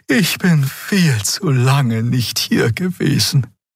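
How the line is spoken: Sighing. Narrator (German): seufzte Xea

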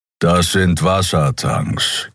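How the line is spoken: Growling. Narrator (German): knurrte Keru

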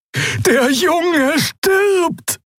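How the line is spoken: Shouting. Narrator (German): schrie Xea die Schattenfrau an

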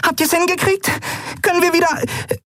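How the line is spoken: Squeaky. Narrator (German): piepste sie

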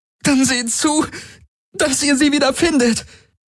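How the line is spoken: Pained cry. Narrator (German): rief Ylana unter Schmerzen

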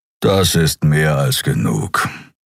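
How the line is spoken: Growling. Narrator (German): knurrte er

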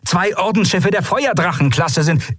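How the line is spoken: Calling out. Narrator (German): rief Quailor

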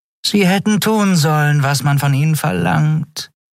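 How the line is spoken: Purring. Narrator (German): schnurrte Shi'ar hinter seinem Rücken

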